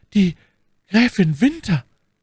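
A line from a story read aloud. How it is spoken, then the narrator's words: Stammering. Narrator (German): stammelte Madame Bonacieux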